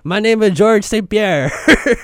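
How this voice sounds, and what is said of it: Put-on French accent. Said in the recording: “I got to work on my French accent ... That's pretty good. It's pretty good.”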